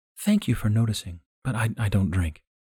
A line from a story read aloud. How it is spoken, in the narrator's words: In a melodic voice said